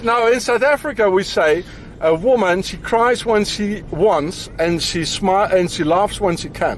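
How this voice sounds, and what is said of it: South African accent. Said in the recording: “He's not a proper South African. So I reckon the accent is fake”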